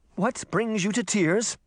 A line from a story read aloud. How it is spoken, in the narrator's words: the skinny merman said nervously